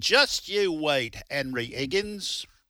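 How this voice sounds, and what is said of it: Deliberately bad British accent. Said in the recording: “that pretty terrible British accent. English accent.”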